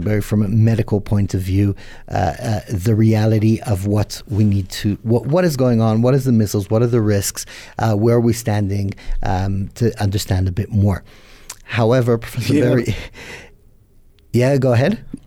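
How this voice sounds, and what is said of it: American accent. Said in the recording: “just hearing your accent, I think you're from the United States”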